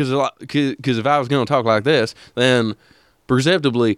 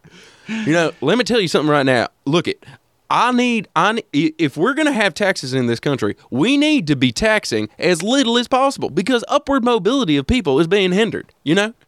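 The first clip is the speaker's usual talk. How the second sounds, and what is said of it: Put-on stereotypical Republican accent. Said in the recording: “I feel like I'm doing a Republican. That's just a Republican accent.”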